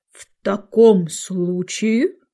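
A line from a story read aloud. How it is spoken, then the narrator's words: Solemn. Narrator (Russian): торжественно проговорил древний дрон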